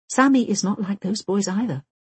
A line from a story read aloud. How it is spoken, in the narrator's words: protests Britt Marie, and the words slip out of her quickly